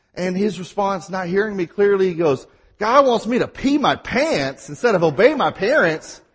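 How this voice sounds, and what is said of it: Mississippi accent. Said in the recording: “I have my Mississippi accent. I talk real fast at times.”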